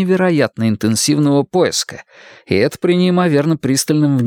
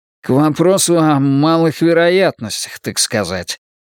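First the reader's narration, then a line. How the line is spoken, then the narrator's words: Grumbled. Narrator (Russian): проворчал Шпиндель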